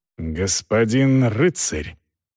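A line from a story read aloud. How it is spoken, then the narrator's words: Hissed reply. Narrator (Russian): зашипел капитан в ответ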